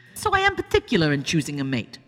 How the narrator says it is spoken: Sophia spat inwardly

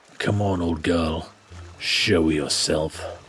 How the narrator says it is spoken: muttering

